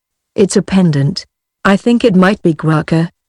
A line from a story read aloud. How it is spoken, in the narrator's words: answered